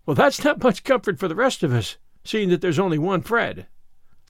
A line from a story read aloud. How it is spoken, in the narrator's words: laughed Anne